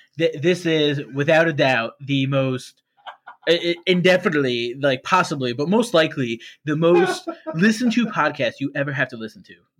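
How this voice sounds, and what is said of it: Imitates another person's voice. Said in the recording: “you do that Donald Trump voice?”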